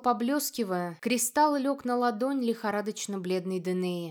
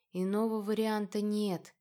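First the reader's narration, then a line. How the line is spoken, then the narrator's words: Barely audible. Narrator (Russian): едва слышно произнес сидящий подле кровати супруги Ирмиан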